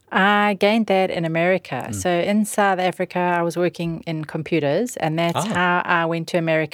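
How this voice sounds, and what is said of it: South African accent. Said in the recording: “you have a definite South African accent”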